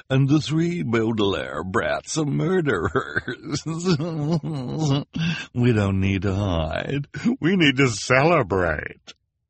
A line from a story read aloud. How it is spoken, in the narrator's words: Esme said with a nasty chuckle